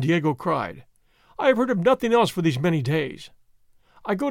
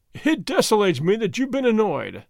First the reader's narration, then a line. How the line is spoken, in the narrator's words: the governor said, laughing